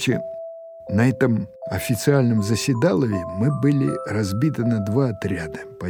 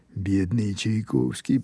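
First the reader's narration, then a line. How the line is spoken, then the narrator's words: Quiet. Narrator (Russian): произнес кто-то тихо с заднего стола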